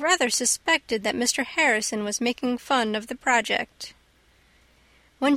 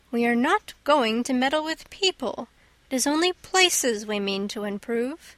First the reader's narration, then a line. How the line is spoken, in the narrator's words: said Anne in a dignified tone